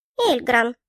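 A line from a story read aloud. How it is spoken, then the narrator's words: Short bird squeak. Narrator (Russian): коротко пропищала птица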